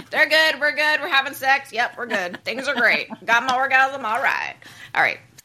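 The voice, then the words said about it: Put-on American southern accent. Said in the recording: “I slipped into a southern accent there”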